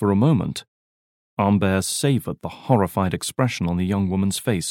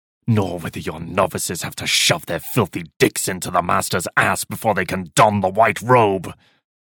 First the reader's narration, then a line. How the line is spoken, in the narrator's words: Umber began sharply